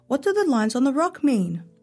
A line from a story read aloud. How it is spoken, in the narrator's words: Omar called out